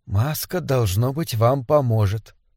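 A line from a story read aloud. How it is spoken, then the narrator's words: Whisper. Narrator (Russian): Миссис Рейнольдс прошептала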